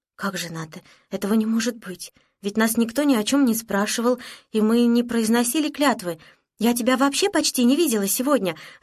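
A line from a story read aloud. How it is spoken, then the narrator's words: Flustered babbling. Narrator (Russian): растерянно пролепетала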